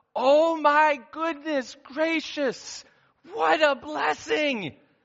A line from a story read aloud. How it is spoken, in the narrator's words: she exclaimed out loud